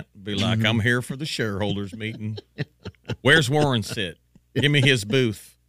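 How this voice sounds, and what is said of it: Put-on Southern American accent. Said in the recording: “Just affect a southern accent.”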